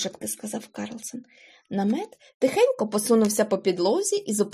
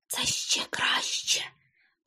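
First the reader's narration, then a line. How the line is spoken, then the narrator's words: Whispered. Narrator (Ukrainian): прошепотів Карлсон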